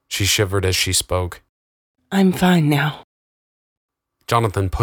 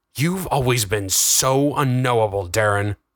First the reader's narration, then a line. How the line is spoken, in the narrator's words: Jonathan growled in low tones, the fury heavy on his voice